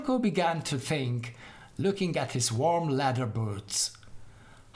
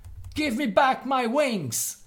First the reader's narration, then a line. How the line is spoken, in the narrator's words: Lotilko shouted after him